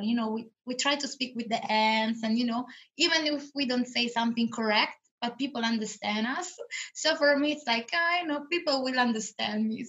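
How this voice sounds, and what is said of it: Italian-accented English. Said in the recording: “I'm Italian, so I don't need to speak British ... the one thing I love about you is your accent”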